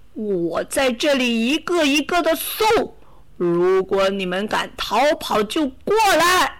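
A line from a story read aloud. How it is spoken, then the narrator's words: Furious roar. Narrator (Chinese): 他气急败坏的怒吼道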